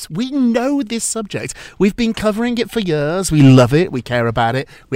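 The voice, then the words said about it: British accent. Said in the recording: “I've become the go-to British guy. The accent helps.”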